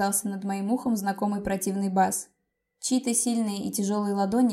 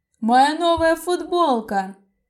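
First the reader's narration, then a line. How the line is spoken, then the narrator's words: Siren-loud yell. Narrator (Russian): заорал он, словно сирена на весь кафетерий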